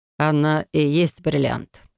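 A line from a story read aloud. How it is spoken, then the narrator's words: Soft reply. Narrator (Russian): мягко отозвался Максимилиан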